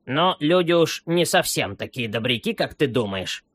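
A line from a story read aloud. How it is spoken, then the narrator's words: Grumbling old remark. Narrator (Russian): заметила старая муха, любившая поворчать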